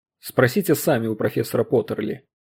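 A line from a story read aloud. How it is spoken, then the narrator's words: Near snap. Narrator (Russian): Фостер почти огрызнулся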